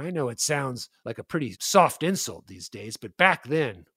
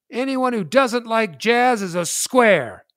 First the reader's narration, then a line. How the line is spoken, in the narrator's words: I yell out